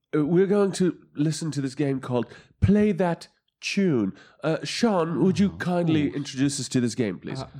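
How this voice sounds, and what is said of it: Put-on English accent. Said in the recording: “I'm going to do it in an English accent now”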